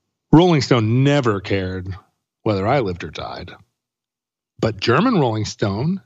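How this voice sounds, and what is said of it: Usual voice. Nothing is said of it.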